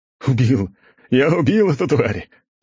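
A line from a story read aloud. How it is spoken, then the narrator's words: Governor shouting, then laughing. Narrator (Russian): прокричал наместник и рассмеялся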